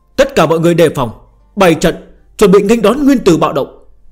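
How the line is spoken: Old woman, raised voice. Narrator (Vietnamese): Tư bà bà cao giọng nói

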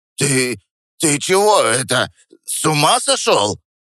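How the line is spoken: Hoarse, trembling. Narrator (Russian): прохрипел он дрожащим голосом

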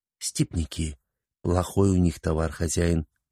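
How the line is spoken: Whispered. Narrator (Russian): Шургар зашептал

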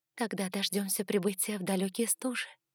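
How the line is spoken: Barely audible whisper. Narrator (Russian): прошептала я едва слышно

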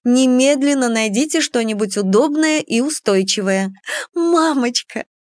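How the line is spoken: Exclaiming, bursting into sobs. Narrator (Russian): воскликнула я и разрыдалась

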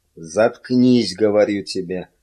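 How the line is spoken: Growl. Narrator (Russian): прорычал Миган

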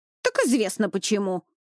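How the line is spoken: Ringing bark. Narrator (Russian): звонко рявкнула скандалистка

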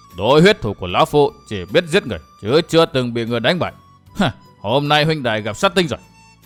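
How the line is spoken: Harsh menacing voice. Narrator (Vietnamese): Huyết quỷ thủ Ngũ Siêu Vân gằn giọng

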